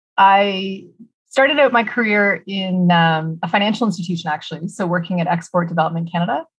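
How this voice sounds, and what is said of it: Canadian accent. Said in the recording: “The accent you hear is a Canadian one.”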